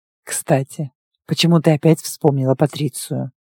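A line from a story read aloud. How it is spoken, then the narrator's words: Quiet question. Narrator (Russian): тихо спросил Тигр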